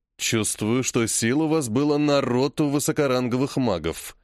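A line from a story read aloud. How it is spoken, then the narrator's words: Snort. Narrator (Russian): хмыкнул Зырянов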